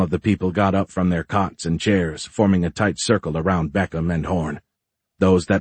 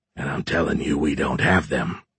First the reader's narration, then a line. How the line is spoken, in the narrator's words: Horn said in a deeper voice